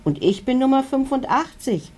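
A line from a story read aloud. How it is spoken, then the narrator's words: Called out. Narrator (German): ruft einer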